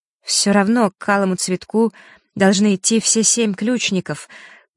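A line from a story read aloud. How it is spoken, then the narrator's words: Trembling female voice. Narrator (Russian): произнесла Диана дрожащим голосом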